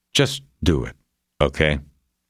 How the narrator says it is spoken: He said calmly

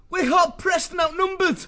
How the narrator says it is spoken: He yelled over the noise of war

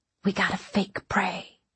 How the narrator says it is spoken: he whispered

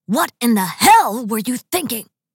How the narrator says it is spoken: he roared

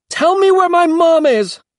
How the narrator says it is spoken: he shouted

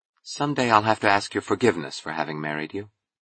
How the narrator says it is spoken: she said gently

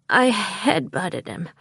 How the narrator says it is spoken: I said, sighing

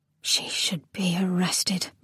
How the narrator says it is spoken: murmured Camilla

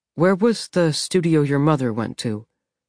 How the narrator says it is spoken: Jessamine asked, her voice much more casual than Archie's

